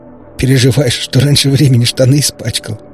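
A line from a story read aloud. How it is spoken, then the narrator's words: Nervous chuckle. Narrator (Russian): нервно хохотнул Бледный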